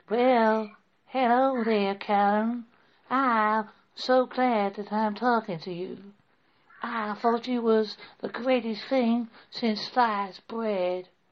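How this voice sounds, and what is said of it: Attempted Southern American accent. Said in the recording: “a proper, well, my attempt at a Southern American accent”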